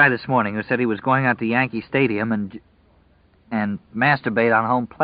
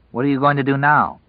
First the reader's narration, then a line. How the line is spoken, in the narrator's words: Larry asked her